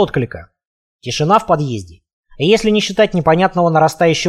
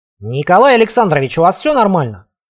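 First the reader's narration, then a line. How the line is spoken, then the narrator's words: Loud question. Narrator (Russian): громко спросил я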